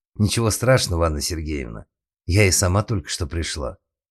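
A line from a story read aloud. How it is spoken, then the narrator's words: Plain. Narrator (Russian): ответила она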